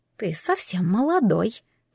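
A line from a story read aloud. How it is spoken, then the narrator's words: Whispered. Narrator (Russian): прошептала она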